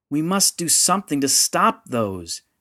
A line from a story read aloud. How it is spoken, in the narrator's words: Yanfrey shouted above the noise of fear and despair